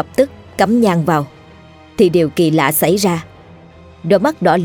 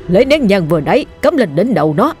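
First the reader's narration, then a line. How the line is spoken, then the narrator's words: Old man shouting. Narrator (Vietnamese): già la lên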